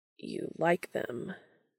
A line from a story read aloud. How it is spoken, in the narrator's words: he says, a hint of that raspy quality that Dean is beginning to associate with an arousal creeping into his voice